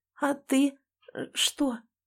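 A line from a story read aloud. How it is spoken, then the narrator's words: Barely audible question. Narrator (Russian): спрашиваю едва слышно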